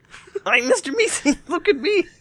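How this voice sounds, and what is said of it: Poor impression of Mr. Meeseeks. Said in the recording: “That was a horrible impersonation.”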